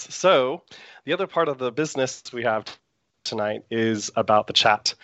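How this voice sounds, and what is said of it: Slightly sore, strained throat. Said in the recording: “have a little bit of a sore throat right now.”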